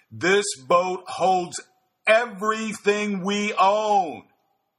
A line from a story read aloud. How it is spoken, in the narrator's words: Ewan shouted into one ear